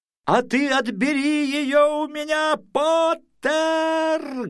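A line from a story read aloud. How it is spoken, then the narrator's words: Loud, from above. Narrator (Russian): громко предложил он сверху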